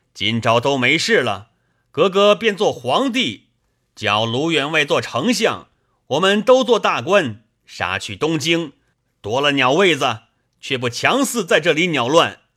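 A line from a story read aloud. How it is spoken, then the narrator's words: Shouting. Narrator (Chinese): 李逵叫道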